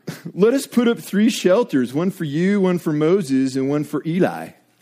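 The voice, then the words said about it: Put-on California accent. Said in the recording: “You have to read it with your best, like, Cali accent.”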